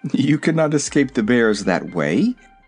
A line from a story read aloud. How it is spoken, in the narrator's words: The owner of the unseen voice laughed lightly and said